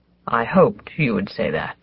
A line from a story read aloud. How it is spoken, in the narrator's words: Papa said brokenly